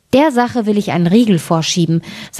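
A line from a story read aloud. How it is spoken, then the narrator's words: Plain. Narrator (German): sagte das Schneiderlein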